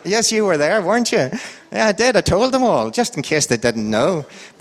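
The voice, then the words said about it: Irish accent, sing-song up-and-down intonation. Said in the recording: “an Irish accent ... I love my accent ... we've got the best accent in the world ... that man doesn't speak, he sings. That's true, because I go up and down and up and down”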